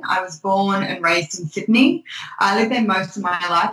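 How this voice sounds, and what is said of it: Australian accent. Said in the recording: “As you can probably tell from my accent, I am Australian.”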